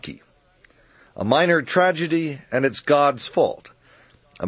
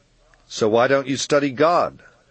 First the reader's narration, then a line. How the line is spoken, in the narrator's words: I asked